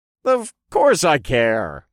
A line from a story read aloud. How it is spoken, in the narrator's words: I chuckled